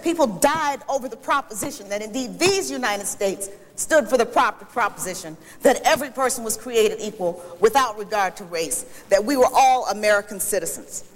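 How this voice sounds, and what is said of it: Raised, excited, loud speaking voice. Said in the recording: “I will lower my voice. I am getting excited.”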